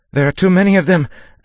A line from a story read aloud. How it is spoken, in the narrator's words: Elwyn cried